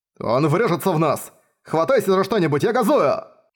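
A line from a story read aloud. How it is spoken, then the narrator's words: Shouted. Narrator (Russian): крикнул М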